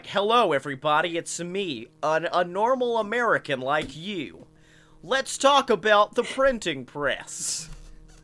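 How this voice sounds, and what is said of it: Benedict Cumberbatch's fake American accent. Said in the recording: “he uses his fake American accent”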